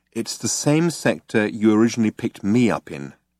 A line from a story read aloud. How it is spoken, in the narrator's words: She said, very calmly